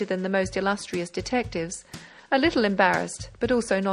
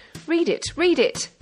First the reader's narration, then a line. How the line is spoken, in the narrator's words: they cried from the opposite side